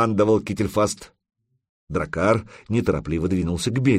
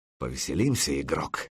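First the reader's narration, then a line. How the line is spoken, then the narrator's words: Fox's barely audible mouthing. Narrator (Russian): еле слышно одними губами проговорил лис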